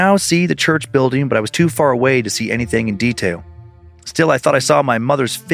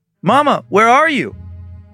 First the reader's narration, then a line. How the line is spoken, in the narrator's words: called out